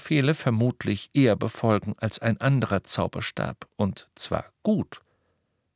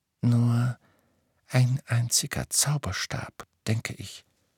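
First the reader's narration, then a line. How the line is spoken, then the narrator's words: Male whisper. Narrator (German): flüsterte er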